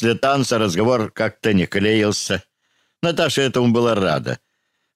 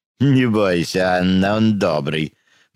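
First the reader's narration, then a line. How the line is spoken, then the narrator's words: Laughing. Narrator (Russian): засмеялась Альма Гуц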